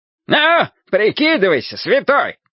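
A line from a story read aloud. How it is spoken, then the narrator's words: Shouting. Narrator (Russian): закричал пристав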